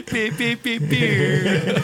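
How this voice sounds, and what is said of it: Vocal imitation of a horn. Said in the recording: “That was the sound of a horn, in case it wasn't obvious to everyone. ... Next time I'll do a better impression.”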